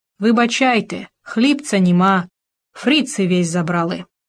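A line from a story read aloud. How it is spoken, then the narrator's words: Old man, muffled voice. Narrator (Russian): Старик сказал глухо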